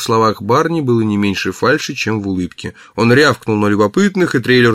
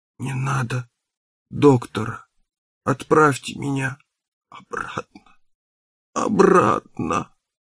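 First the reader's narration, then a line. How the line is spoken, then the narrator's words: Moaning. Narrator (Russian): застонал Раф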